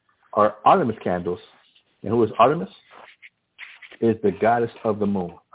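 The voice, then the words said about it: Subdued, restrained voice. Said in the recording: “my voice is a little bit subdued right now ... I'm trying to really restrain myself”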